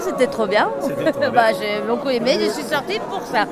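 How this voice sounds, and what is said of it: Spanish accent in French. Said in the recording (French): “un bel accent espagnol”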